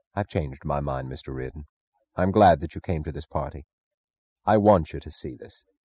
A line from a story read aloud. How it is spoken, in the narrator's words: his face normal, and said very quietly